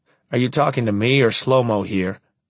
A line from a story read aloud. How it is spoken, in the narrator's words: I sigh, but loudly enough for the Israeli driver to hear me